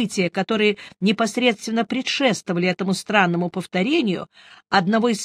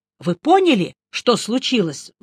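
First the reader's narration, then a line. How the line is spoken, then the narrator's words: Agitated question. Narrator (Russian): взволнованно спросил я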